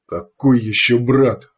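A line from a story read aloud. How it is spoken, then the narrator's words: Angry question. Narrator (Russian): зло спросил мужчина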